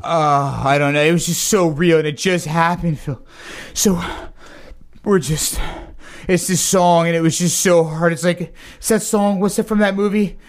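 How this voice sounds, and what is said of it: Out of breath, panting. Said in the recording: “Why are you out of breath?”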